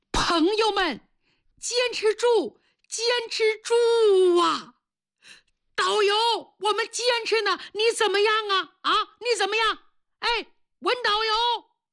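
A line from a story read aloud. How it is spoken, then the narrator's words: Weak man shouting loudly. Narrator (Chinese): 他昏死过多次，可是每当他一醒，就要大声地喊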